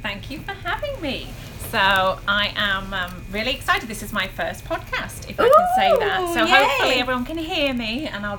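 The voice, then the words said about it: British accent. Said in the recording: “you will enjoy her British accent, which is going to be great on the ear”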